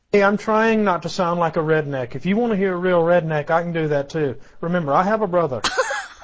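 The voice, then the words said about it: Educated Alabama Southern drawl. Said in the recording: “we need his southern drawl. I mean, we have Shane's ... You sound like an educated man from Alabama.”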